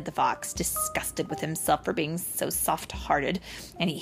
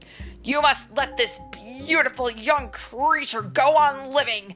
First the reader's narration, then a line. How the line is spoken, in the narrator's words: the bone yelled